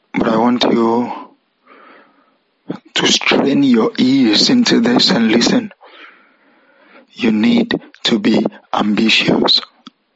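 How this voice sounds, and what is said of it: Strained, rough tired voice. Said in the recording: “Sorry, I've been talking all morning. I've been making some calls, so my voice is a bit cranky.”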